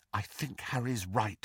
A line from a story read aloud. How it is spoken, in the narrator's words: said Hermione quietly